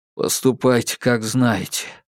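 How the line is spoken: Sighing. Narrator (Russian): вздохнул

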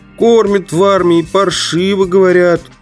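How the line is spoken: Persistent whining. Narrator (Russian): упорно скулил мой соратник

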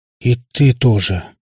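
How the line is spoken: Hermit sighing. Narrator (Russian): вздохнул отшельник

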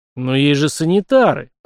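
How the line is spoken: Near growl. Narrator (Russian): Практически рыкнув в ответ

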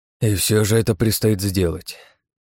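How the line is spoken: Sighing. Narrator (Russian): вздохнул Багратион

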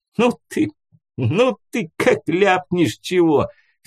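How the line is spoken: Laughing loudly. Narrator (Russian): хохотал он

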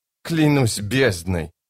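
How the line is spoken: Drawled. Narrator (Russian): протянула она

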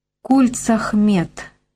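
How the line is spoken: Plain. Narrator (Russian): сказал Николай

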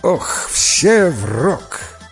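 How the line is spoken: Old man laughing, commanding. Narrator (Russian): Дед рассмеялся и приказал

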